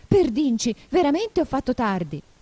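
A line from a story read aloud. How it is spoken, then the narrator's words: Exclamation. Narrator (Italian): lo sentì esclamare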